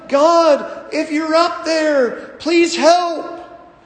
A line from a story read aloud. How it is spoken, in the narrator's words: yelled